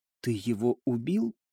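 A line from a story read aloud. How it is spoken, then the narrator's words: Quiet question. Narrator (Russian): тихо спросила Элина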